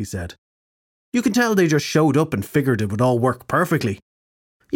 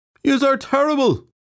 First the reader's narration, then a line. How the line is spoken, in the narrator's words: some drunken suit-wearing morons shouted